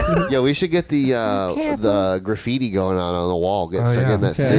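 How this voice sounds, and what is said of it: Usual voice. Nothing is said of it.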